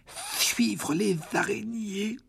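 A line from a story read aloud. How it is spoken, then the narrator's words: Weak voice. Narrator (French): dit Ron d'une voix faible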